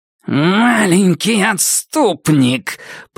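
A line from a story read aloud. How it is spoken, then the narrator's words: Growling. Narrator (Russian): прорычал благословенный бессмертный Фаарин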